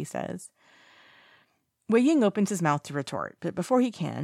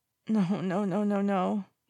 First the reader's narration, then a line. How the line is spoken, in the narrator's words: he's whimpering